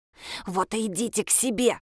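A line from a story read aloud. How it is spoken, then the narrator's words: Hissing. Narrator (Russian): зашипела она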